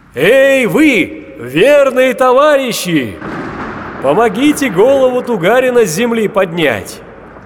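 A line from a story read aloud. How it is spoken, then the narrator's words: Booming shout. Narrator (Russian): Крикнул Алёша Попович зычным голосом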